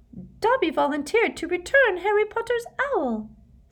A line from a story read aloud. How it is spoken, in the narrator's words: said the elf squeakily, with a look of positive adoration